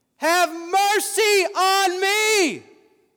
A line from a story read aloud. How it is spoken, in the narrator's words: cried out to Jesus in his weak estate